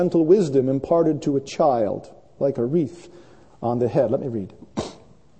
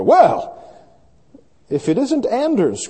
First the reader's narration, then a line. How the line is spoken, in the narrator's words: cried the cheerful farmer